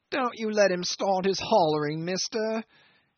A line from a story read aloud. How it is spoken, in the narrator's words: hailed from afar the accident case in a distressed, angry shout that came ringing between the walls like a quavering call down a tunnel